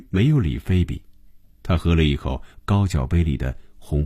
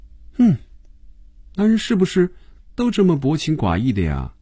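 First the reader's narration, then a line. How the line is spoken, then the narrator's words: Soft sigh. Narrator (Chinese): 菲比轻轻地叹了口气说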